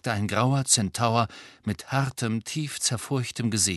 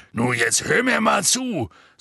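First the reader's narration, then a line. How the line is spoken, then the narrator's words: Angry. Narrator (German): sagte Hagrid zornig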